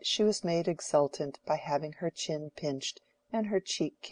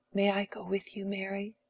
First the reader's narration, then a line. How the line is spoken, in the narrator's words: whispered Letty, a most inconvenient child